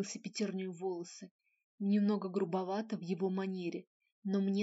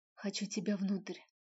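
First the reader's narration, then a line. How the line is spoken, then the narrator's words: Impulsive breathy exhale. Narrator (Russian): Неожиданно для себя выдохнула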